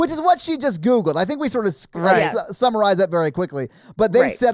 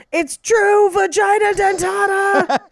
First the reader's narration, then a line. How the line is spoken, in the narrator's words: he screams